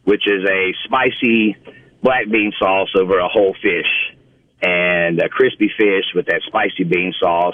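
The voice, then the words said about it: Mississippi Southern US accent. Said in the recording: “my Mississippi accent”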